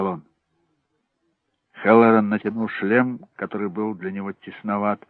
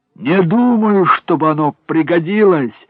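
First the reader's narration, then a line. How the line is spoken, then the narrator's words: Shouted reply. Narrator (Russian): закричал Хеллоран в ответ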